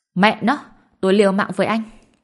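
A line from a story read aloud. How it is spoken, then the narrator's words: Ashamed angry scream. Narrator (Vietnamese): vừa xấu hổ vừa bực bội, gào lên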